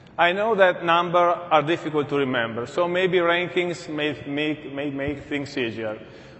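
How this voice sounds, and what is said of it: Non-native English accent. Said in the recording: “those of you who are not accustomed to my accent yet”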